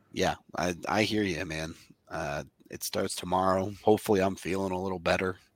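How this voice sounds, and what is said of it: Hoarse, sore-throated voice. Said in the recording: “I'm sure you can hear it in my voice. ... your throat's all torn up”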